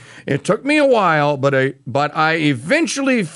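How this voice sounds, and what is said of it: Usual voice. Nothing is said of it.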